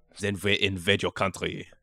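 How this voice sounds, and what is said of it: Good put-on foreign accent. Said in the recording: “See, that was a good accent.”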